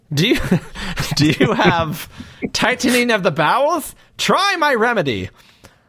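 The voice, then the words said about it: Put-on salesman accent. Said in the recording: “if you carry on with that accent”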